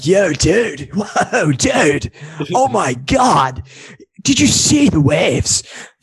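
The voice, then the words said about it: Put-on California surfer accent. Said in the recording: “California accent? Like, California's like”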